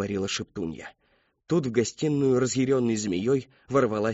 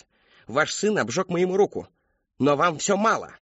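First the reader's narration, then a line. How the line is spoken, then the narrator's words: Barked. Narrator (Russian): рявкнула она матери Кристофера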